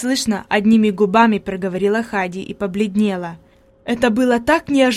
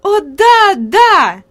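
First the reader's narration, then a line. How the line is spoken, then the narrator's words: Lively delighted exclamation. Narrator (Russian): живо воскликнула Хади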